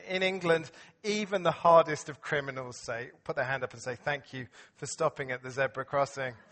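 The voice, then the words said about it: English accent. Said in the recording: “I still have a pretty English accent, I think.”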